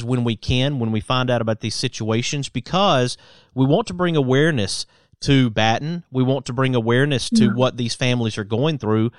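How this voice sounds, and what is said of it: Southern American Alabama accent. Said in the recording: “we both have an accent, but it's from different locations ... mine is from Alabama”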